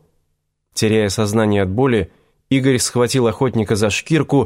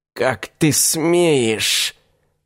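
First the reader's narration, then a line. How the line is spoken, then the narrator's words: Offended hiss. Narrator (Russian): обиженно прошипел проводник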